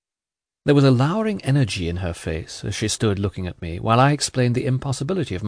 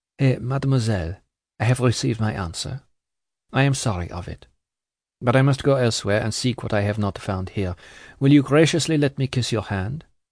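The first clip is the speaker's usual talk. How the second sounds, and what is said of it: Mild soft voice, pretty accent. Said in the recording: “said with her pretty accent and in her mildest voice”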